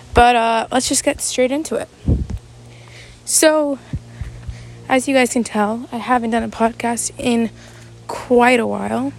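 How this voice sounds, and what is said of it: Out of breath while talking. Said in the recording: “I'm out of breath”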